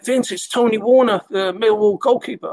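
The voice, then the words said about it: Attempted Scouse accent. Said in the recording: “This Scouse accent. I'm not good with Scouse accents, but I do it anyway.”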